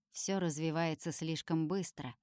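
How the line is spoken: Quiet, confiding. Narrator (Russian): тихо говорит Люцифер, словно собирается доверить мне какую-то тайну

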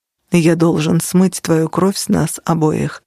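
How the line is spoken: Grim. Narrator (Russian): мрачно сказал он

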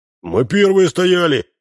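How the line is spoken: Shout. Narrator (Russian): закричал было кепка

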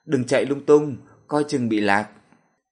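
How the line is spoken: Exasperated amused shout. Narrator (Vietnamese): Sở Dực vừa bực vừa buồn cười, la lên

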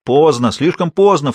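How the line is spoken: Echoing, laughter. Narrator (Russian): вторил ему Грир, и все снова расхохотались

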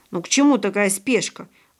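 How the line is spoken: Grumbling. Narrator (Russian): ворчал Павлик

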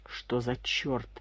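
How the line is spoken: Muttering. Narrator (Russian): пробормотал Комаров

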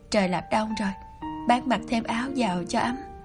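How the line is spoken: Soft gentle speech. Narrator (Vietnamese): Anh khẽ nói

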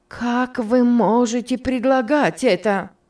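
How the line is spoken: Exclamation. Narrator (Russian): воскликнула Мари

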